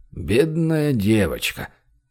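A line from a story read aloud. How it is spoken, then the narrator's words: Mumble. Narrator (Russian): пробормотал главный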